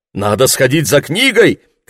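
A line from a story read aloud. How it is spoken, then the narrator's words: Shout. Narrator (Russian): крикнул Лесли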